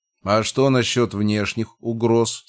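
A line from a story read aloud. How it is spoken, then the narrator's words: Plain. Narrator (Russian): спросил я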